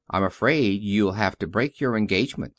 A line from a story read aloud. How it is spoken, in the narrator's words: she said